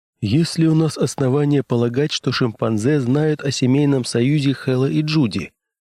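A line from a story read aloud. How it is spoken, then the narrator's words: Plain. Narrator (Russian): спросил Кристенсен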